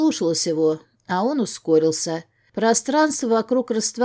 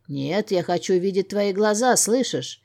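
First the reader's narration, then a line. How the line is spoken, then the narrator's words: Growl. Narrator (Russian): Алан тут же прорычал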